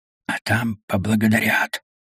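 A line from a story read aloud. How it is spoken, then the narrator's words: Barely audible. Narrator (Russian): чуть слышно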